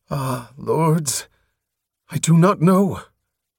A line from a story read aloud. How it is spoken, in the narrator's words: she groaned